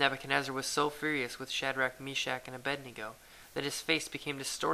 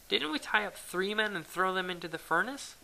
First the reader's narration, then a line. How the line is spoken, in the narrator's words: Nebuchadnezzar jumped up in amazement and exclaimed to his advisers